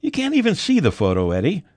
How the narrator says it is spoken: Mickey said with a chuckle

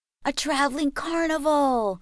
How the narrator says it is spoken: my brother shouted as he ran toward me

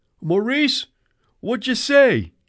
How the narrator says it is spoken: A voice outside, it must have been Eddie's, shouted back

